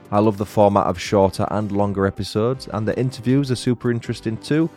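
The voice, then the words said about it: Lilting northern English accent. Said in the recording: “a lovely lilting northern accent”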